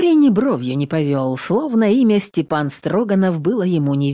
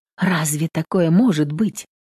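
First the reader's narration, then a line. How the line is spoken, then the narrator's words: Tender whisper. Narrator (Russian): ласково шепнул коню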